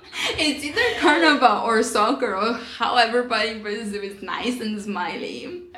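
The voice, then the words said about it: Brazilian accent in English. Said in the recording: “Oh, we have an accent. Where are you from? Brazil.”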